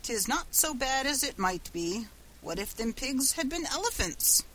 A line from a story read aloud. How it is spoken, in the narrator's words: said cheerfully